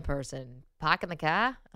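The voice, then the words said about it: Boston accent impression. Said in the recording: “My Boston accent is not ... That was great. I mean, I felt like a Kennedy was in the house right now.”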